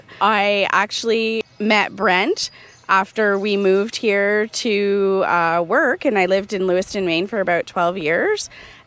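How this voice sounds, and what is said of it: Canadian accent. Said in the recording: “notice the Canadian accent. It's slightly different from mine.”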